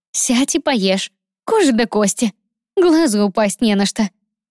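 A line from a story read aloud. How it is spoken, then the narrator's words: Laughing. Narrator (Russian): рассмеялась подруга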